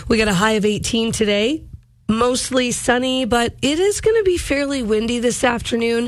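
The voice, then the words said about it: Voice not fully recovered, strained. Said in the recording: “As you can hear, my voice has not fully returned, but it's better than it was”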